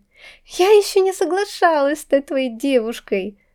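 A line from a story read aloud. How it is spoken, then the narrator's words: Ringing laughter. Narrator (Russian): звонко рассмеялась я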